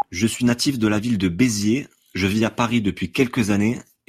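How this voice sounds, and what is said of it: Southern French accent from Béziers. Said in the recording (French): “j'adore ton accent ... ça sent le soleil, ça sent la plage”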